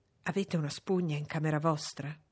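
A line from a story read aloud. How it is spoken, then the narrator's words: Whisper. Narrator (Italian): mi sussurrò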